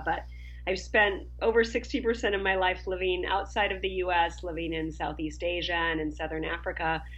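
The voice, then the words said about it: Minnesota American accent. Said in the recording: “As you can tell from my accent, I was raised in Minnesota.”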